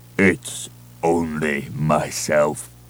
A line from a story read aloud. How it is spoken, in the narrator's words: a blubbering voice rumbled